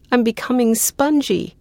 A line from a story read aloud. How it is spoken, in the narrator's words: gasps the sapling, adding in a panicky voice